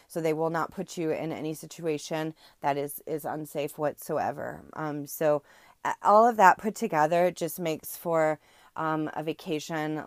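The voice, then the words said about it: Strained voice going in and out. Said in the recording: “sorry about my voice. I think it's kind of going in and out”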